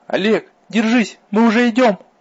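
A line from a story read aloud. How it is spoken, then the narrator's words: Loud encouraging shout. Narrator (Russian): Громко закричала она, явно рассчитывая подбодрить сражающегося, по его мнению, Олега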